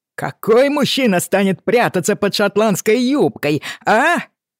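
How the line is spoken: Loud resonant voice. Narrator (Russian): Звучный голос Джеймсона было хорошо слышно

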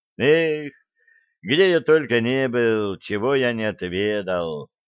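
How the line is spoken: Nostalgic sigh. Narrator (Russian): Ностальгически вздохнул Блад

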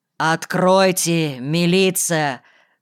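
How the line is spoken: Commanding. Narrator (Russian): повелительно сказал

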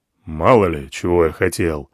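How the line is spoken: Grumbled. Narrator (Russian): буркнул командир

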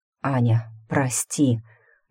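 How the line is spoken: Hoarse voice. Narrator (Russian): звук хриплого голоса

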